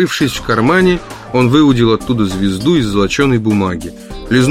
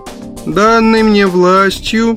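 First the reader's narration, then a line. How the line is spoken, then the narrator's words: Nasal drone. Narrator (Russian): загнусавил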